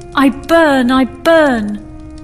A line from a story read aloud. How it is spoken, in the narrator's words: Suddenly the princess shrieked